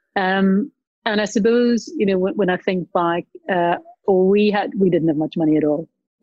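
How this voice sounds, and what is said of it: Strong Northern Irish accent. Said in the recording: “I still have a very strong, you know, Northern Irish accent”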